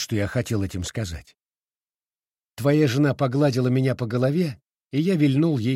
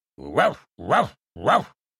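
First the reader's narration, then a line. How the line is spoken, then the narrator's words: Very loud bark. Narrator (Russian): Рявкнул я так, что даже листья на утуне зашелестели, а соседские страусы загоготали от испуга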